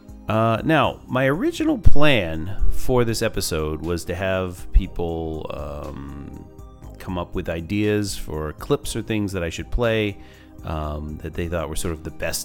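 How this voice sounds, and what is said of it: Sick, flu-affected voice. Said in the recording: “I sound terrible, ... I currently have the flu”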